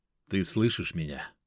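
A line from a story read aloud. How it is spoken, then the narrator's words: Calm. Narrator (Russian): спокойно произнес я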